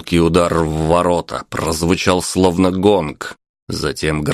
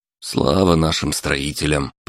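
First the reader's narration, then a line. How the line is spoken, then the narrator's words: Muttered. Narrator (Russian): пробормотал водитель манипулятора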